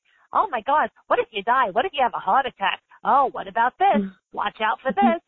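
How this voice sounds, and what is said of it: Little old lady Bronx accent voice. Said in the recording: “Give it a voice. Like, you'll hear my voice is like little old lady from the Bronx”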